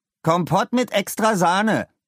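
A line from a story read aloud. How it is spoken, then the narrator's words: Loud demand. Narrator (German): verlangte er laut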